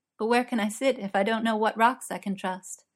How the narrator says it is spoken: Diamond laughed

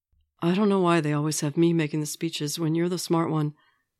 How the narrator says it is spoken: Steve says

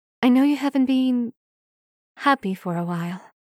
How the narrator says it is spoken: she murmurs

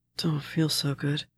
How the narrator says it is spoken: he mumbled

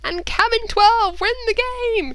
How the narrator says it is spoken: screamed the announcer into his megaphone

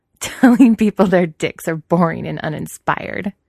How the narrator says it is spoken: Wei Ying continues, laughing now

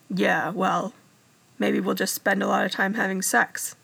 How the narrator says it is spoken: he said flippantly

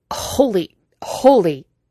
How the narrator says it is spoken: he choked out

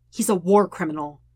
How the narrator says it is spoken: Sokka says harshly

